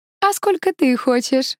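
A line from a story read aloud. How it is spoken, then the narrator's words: Laughing again. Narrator (Russian): снова засмеялась она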